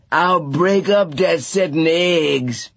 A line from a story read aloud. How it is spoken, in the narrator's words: He hollered